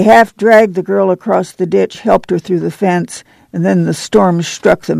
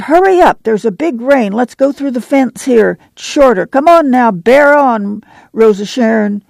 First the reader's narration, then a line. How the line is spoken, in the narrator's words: Ma cried